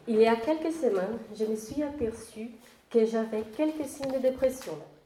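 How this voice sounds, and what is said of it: Noticeable accent in French. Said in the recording (French): “j'ai un accent qui peut être un peu difficile à comprendre.”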